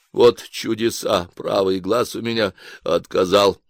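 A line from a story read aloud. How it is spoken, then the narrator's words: Plain. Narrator (Russian): сказал я Машке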